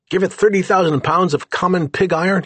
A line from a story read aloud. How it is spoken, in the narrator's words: he exclaimed